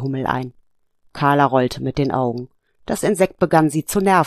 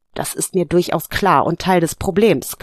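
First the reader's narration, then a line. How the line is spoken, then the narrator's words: Growling. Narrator (German): knurrte sie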